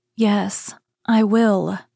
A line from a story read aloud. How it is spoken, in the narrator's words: said the little princess in a trembling voice as she thought of the prince and the immortal soul